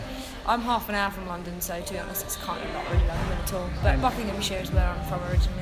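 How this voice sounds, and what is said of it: English accent. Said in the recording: “that's what the accent's about, isn't it? ... I'm from England once upon a time”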